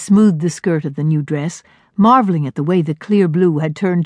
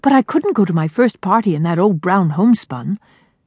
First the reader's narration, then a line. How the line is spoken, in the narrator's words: Miriam promised quickly